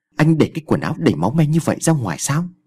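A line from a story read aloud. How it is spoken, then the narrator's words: Loud shout. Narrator (Vietnamese): Sa quát lớn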